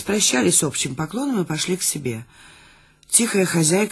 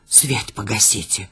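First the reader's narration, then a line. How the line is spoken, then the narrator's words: Whisper. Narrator (Russian): шепнула она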